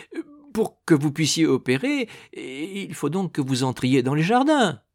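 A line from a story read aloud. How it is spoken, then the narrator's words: Gardener stammering. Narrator (French): balbutia le jardinier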